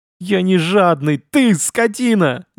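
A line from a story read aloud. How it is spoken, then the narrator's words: Hunter yelling after. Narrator (Russian): заорал ему вслед охотник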